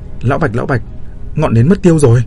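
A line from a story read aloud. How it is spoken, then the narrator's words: Hurried yelling. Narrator (Vietnamese): vội vã gào lên với Bạch Dực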